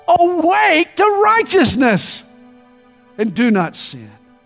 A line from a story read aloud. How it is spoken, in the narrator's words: he finally shouts